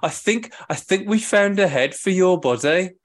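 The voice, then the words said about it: Put-on Manchester accent. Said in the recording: “do the accent ... It's from Manchester, isn't it?”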